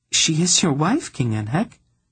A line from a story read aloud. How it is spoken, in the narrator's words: Tenedra pointed out coolly